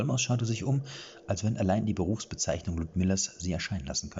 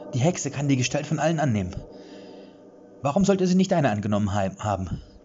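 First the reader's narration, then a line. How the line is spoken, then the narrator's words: Threatening call. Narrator (German): rief sie drohend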